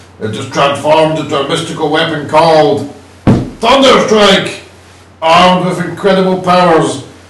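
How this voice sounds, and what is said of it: Comic character voice of Eric Masterson. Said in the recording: “I'm going to do the voice of Eric Masterson himself.”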